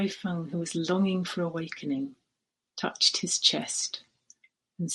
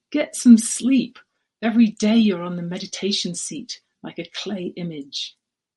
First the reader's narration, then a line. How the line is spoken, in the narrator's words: Yen To yelled at him and said